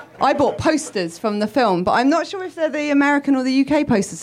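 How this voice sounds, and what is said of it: British accent. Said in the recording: “because I'm British... I thought you were doing a Lake Bell accent”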